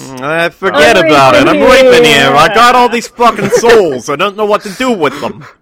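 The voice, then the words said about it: Put-on funny Brooklyn accent. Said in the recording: “do a funny Brooklyn voice”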